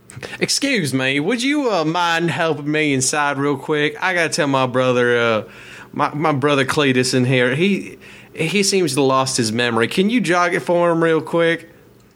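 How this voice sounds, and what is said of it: Put-on strange accent. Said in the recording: “I don't know if I can do that accent ... We've got a mighty strange accent there, pal.”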